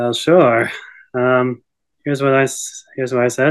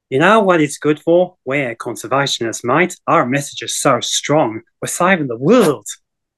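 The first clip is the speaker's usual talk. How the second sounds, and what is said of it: Broad Australian accent impression. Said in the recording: “I did a impersonation of Steve Irwin ... I can put on a broad Aussie accent ... That literally was just like Steve Irwin”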